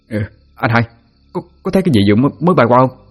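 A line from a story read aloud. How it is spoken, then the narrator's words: Stammering. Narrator (Vietnamese): Nó lắp bắp nói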